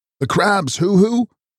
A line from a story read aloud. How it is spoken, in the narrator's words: wailed